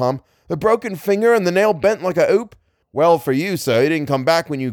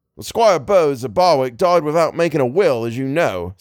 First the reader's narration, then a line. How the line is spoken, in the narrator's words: said Tom